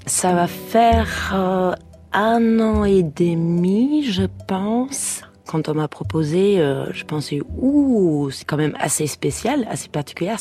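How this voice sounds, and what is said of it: French spoken with German accent. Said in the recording (French): “elle avait un bel accent allemand”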